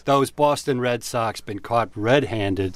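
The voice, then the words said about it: Boston accent. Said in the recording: “Was that a Boston accent?”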